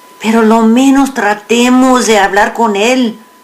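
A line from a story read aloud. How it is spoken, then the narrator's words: Pleading. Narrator (Spanish): suplicó Narciso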